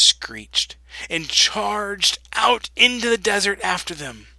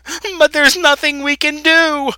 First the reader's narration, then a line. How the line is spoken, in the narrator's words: screamed